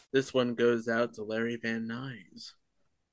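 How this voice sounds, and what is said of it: Sexy, sultry voice. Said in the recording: “sexy voice”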